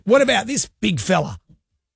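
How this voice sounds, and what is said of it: Imitates another person's voice. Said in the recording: “you do a very good impression ... Of him ... his Robert Irwin impression ... It's extraordinary ... It's pretty good ... That's not bad”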